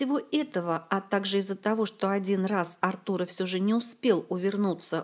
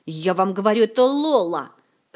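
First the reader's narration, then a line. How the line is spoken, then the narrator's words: Angry growl. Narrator (Russian): рычал разгневанный маг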